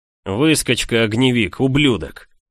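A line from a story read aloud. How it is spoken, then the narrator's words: Growling young man. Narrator (Russian): Зарычал парень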